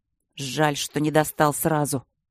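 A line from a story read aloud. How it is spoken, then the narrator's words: Harsh grumble. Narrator (Russian): пробурчал он жестко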